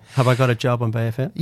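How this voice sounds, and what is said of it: Irish accent. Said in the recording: “I love the Irish accent.”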